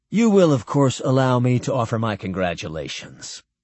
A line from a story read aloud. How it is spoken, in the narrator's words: Barry told them smoothly